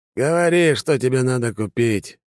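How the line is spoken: Sighing. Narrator (Russian): вздохнул Конаков

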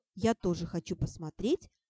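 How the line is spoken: Mumbling. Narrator (Russian): Эмит пробормотал

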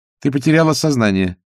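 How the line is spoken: Dry explanation. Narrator (Russian): сухо пояснила Агнесса

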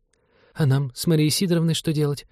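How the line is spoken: Timid question. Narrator (Russian): робко спросила Наталья

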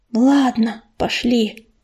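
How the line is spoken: Whisper. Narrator (Russian): прошептал Ежевика

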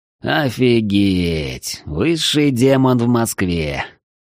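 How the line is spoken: Dejected, awed drawl. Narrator (Russian): удрученно протянул демонолог, впечатленный увиденным

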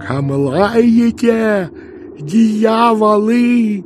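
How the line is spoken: Furious shout. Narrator (Russian): яростно закричал Иона

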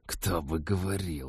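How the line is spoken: Indignant hiss. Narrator (Russian): возмущенно прошипел Тед

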